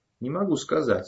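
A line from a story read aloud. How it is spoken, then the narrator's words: Laughing through words. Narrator (Russian): сквозь смех ответил Кадри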